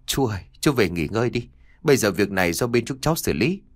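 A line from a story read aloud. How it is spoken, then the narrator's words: Soft, coaxing voice. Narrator (Vietnamese): nhỏ giọng khuyên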